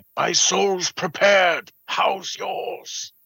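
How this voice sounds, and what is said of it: Imitates a movie character's voice. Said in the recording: “That's a pretty good impression.”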